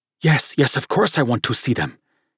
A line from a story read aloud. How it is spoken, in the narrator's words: said in an excited whisper